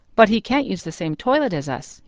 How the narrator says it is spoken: said firmly

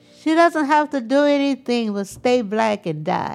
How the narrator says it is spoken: one yelled back

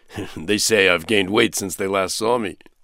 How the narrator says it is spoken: he explained, and then added with a chuckle

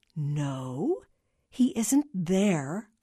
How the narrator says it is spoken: Carla said slowly, hoping against hope

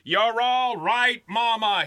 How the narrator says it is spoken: he shouted, trying to calm her

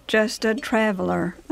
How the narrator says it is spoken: said wearily

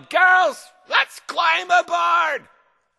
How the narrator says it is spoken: a woman pirate captain yelled

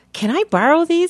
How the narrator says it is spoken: begged

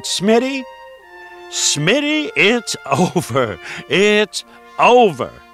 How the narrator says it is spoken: He hollered

